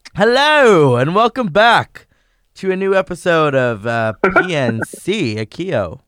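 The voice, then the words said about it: Put-on English accent. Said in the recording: “Your English accent. ... when I start doing the English accent”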